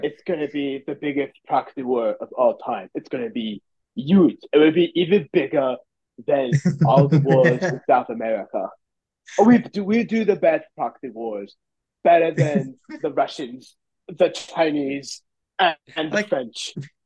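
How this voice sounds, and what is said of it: Put-on French accent. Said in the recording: “like how you gave him a French accent.”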